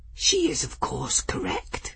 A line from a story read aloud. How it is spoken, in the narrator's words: Folly whispered to her jar